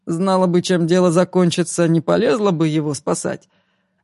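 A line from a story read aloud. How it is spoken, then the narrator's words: Asked after laughing. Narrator (Russian): отсмеявшись, спросил Игорь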